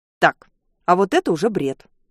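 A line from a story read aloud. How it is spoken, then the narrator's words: Stern. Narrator (Russian): строго говорю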